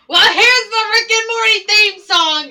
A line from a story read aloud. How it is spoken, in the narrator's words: screaming it at the top of his lungs